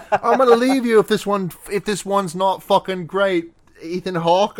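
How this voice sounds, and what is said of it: Put-on British accent. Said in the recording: “I literally said I wasn't going to do a British accent.”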